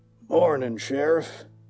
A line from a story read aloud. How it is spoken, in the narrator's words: he growled